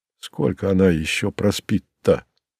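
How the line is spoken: Tragic-voiced question. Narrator (Russian): трагическим голосом спросил Кузя

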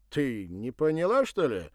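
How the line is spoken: Surprised exclamation. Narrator (Russian): удивленно воскликнул Вадим

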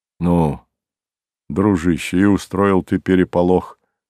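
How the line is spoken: Low voice. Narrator (Russian): вполголоса сказал Ревзин

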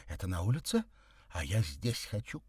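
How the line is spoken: Capricious, whiny. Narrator (Russian): капризным тоном сказала она

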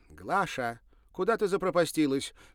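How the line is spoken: Shouting toward door. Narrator (Russian): крикнула она в сторону двери

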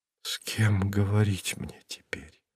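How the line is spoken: Whispered. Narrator (Russian): шепотом повторила она

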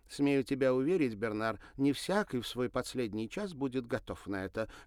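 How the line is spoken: Snapping retort. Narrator (Russian): огрызнулась Мари

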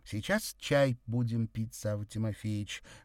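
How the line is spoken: Loud. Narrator (Russian): громко сказала Андреева

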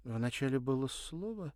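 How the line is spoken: Uncertain. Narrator (Russian): неуверенно сказала она

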